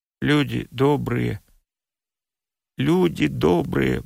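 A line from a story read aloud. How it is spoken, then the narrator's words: Muttering. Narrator (Russian): бормотал Перепинчук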